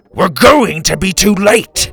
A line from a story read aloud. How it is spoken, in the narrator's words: he roared